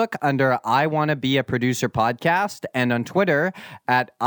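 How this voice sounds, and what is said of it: Usual voice. Nothing is said of it.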